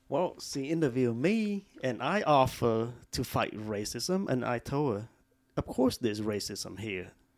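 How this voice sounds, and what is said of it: Speaks with a noticeable accent. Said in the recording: “it may have been your accent”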